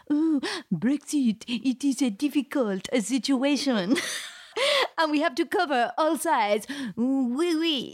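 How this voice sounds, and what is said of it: Bad put-on French accent. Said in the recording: “you can just do a really bad French accent”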